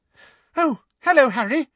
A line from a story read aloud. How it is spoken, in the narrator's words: said Ron's younger sister, Ginny, brightly